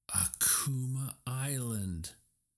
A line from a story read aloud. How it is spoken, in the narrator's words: Hiro exclaimed